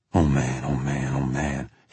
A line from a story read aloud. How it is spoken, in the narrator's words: he kept saying, a steady mumble, all the time shaking his head, gritting his teeth